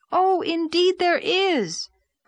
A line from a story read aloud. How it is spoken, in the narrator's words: cried Anne, who couldn't endure such heresy in silence